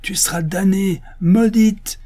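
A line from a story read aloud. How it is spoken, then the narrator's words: Exclaiming mother superior. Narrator (French): s'écria la supérieure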